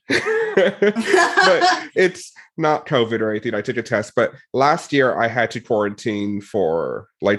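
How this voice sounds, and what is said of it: Congested, slightly odd voice. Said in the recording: “my voice is a little weird because I'm a little congested”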